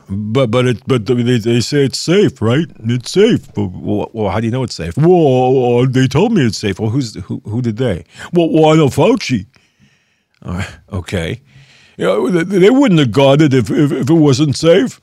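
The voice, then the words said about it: Mock dim-witted character voice. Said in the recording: “I guess I can do a moronic impression.”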